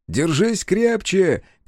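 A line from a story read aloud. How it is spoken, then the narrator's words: Shout. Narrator (Russian): крикнул Фиро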